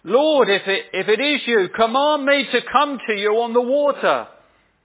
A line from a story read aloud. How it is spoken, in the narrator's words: he shouts back to Jesus ... and says